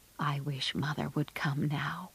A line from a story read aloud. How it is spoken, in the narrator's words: whispered Joe